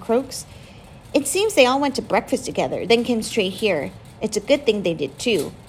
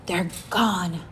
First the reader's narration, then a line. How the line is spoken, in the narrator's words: Mom whispers